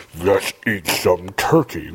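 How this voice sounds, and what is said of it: Deep, heavy imitation voice. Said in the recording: “That's not a good impersonation. ... Just hold your throat ... That was a really fat Darth Vader.”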